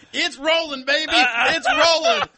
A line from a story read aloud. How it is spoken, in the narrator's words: And he was yelling